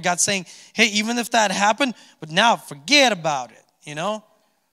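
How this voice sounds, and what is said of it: New Jersey accent. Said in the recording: “Sorry for the Jersey accent.”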